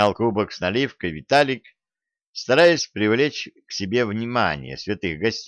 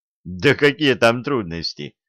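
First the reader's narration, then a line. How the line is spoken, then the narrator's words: Skeptical grunt. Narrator (Russian): хмыкнул Виталик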